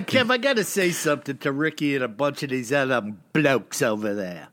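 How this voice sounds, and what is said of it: British accent. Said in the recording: “my Brit accent”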